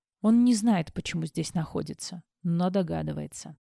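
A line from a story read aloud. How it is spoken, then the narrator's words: Weary. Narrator (Russian): устало произнес Максвелл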